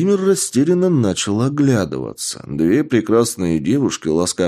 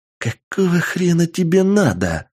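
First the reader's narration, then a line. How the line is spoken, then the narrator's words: Angry woman's hiss. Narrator (Russian): зло прошипела сексуальная блондинка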